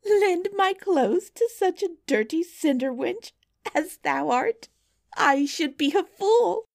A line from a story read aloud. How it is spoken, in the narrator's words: cried Miss Charlotte